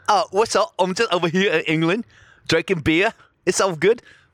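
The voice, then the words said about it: Imitated British accent. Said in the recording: “the British girl ... I don't know what type of accent it is.”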